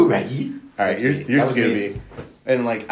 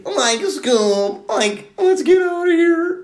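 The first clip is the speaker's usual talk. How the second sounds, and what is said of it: Shaggy cartoon character voice. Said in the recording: “I can do Shaggy ... Ooh, that's good.”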